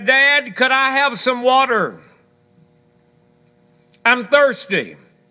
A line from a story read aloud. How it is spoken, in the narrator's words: hollered out and he said